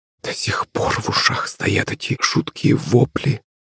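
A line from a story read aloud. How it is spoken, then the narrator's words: Muttering. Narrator (Russian): пробормотала Наталья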